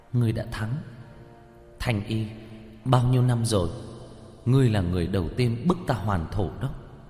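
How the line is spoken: Sighing. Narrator (Vietnamese): thở dài nói

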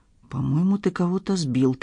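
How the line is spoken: Quiet reply. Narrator (Russian): так же тихо ответил ему Мармышкин

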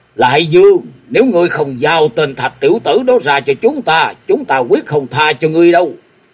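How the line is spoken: Distant roar from outside. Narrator (Vietnamese): bên ngoài vọng vào tiếng gầm

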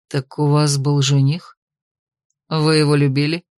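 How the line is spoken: Even-toned question. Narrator (Russian): поинтересовался ровным тоном

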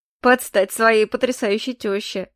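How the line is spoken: Chuckle. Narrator (Russian): хохотнул Заэль

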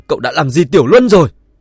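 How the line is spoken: Furious old man. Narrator (Vietnamese): Ông cụ Tần lại tức giận không dứt, cả giận nói

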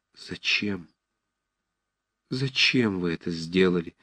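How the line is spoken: Quiet, passionate reproach. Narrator (Russian): вдруг сказала она тихо, но со страстным упреком

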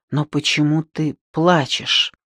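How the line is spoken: Strained forced words. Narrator (Russian): София смогла только выдавить

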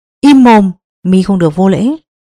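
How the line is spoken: Old man shouting. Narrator (Vietnamese): Bắc Sơn lão nhân quát lên

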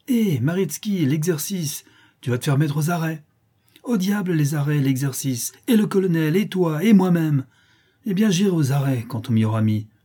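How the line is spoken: Exasperated exclamation. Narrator (French): s'écria Maritsky, exaspéré

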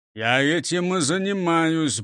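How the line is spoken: Gruff mutter. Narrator (Russian): буркнул прокурор Принцип

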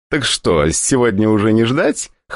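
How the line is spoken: Short guffaw. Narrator (Russian): хохотнул Антон

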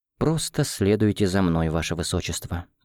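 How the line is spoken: Quiet, soft speech. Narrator (Russian): негромко произнес я

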